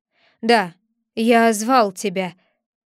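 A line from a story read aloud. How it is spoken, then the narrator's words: Gloomy. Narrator (Russian): отвечал он мрачно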